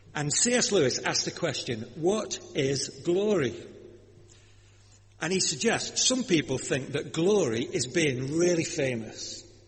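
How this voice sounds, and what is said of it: Lancashire English accent. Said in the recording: “My accent, you see. Being from Lancashire.”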